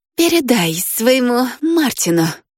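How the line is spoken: Hissed. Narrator (Russian): прошипела Рита

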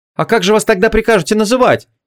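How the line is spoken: Angry young woman asking. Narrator (Russian): сердито поинтересовалась девушка

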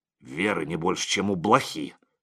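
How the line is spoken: Grumbling priest. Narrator (Russian): проворчал отец Егорий

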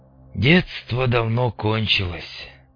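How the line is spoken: Sighing. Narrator (Russian): вздохнул Мун

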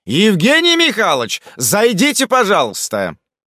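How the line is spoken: Shouted. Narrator (Russian): прокричал

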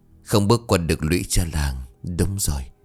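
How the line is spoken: Soft muttering to self. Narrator (Vietnamese): chị Hai ... chỉ khẽ lẩm bẩm một mình

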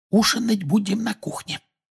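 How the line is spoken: Whisper. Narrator (Russian): прошептала миссис Уизли

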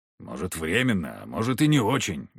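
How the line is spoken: Grumbled. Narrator (Russian): буркнул Егор

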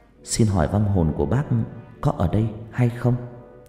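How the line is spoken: Soft gentle voice. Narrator (Vietnamese): cô nói bằng giọng nhỏ nhẹ

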